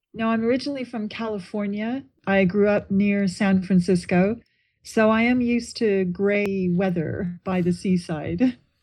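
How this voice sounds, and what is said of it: American accent, not English. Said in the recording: “that's not a Brighton accent”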